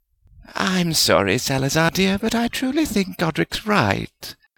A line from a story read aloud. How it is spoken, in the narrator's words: Helga said soothingly